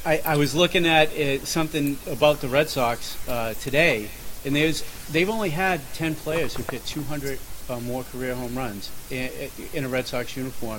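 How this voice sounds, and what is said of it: Boston accent. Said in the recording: “my accent may give it away that I'm from Boston”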